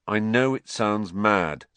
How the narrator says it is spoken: said Harry flatly

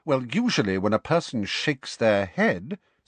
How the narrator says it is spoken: said McGonagall coldly

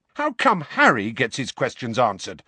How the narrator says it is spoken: said Fred angrily

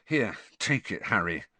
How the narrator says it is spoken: Ron added in an undertone

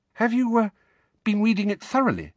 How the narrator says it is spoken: Hermione asked, still more anxiously

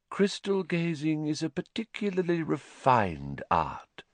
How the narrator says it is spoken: she said dreamily

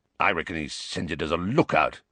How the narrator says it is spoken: growled Moody

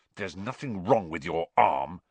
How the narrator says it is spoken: he hissed at Malfoy

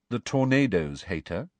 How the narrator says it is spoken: said Cho, rather coolly

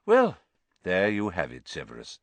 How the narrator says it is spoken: said Dumbledore calmly

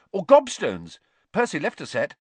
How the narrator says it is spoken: he said hastily

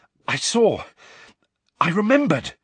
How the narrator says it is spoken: Harry panted

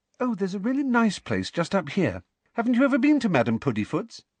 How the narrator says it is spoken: she said brightly

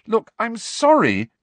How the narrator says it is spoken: cried Hermione

